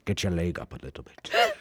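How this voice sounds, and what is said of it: Sean Connery impression accent. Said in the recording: “Sean Connery ... Stop, please, your accents.”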